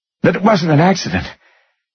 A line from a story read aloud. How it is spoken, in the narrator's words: she gasped